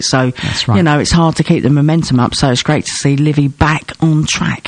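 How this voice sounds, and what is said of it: Strained, failing voice. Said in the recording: “My voice is going there as well. It's not a great Monday, is it?”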